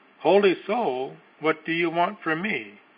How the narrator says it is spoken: The other, terrified, exclaimed

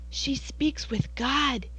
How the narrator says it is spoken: they whispered in awe

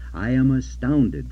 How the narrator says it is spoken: says he

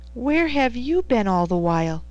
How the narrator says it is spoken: he exclaimed

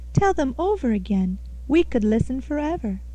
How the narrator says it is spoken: they exclaimed

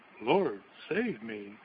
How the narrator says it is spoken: he cried out with the greatest confidence

